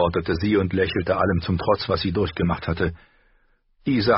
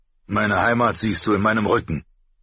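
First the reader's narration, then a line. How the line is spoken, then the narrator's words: Gruff, curt. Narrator (German): sagte barsch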